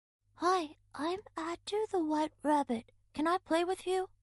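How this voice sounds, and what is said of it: Soft, changed voice. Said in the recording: “Adou changed his voice and started to talk in a soft voice.”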